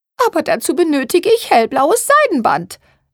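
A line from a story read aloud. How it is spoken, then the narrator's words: Whining complaint. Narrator (German): jammerte Therese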